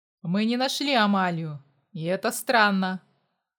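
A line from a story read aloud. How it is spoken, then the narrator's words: Grumbling. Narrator (Russian): проворчал Виталий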